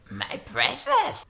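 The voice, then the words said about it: Gollum character voice impression. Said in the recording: “your Gollum impression”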